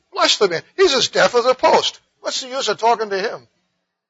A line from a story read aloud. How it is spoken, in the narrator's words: Surprised as well as exasperated, the woman exclaimed